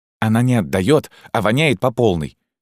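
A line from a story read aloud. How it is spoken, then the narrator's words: Angry correction. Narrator (Russian): сердито поправил его игрок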